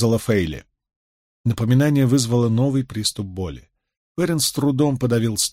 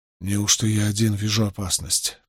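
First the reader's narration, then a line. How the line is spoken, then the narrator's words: Muttered. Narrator (Russian): пробормотал Перин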